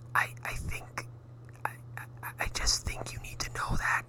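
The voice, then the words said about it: Whispering. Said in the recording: “I don't know why I'm whispering on this podcast”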